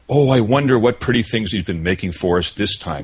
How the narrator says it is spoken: exclaimed Marie

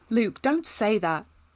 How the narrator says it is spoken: I said, but my voice was shaking

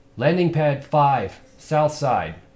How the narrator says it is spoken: she shouted over the crack of her rifle

